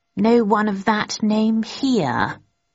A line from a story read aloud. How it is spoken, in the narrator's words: he said slowly